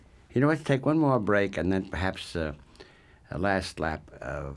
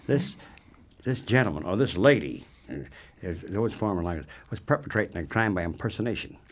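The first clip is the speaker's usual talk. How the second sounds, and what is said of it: Mock police officer voice. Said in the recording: “I'm being a cop now talking.”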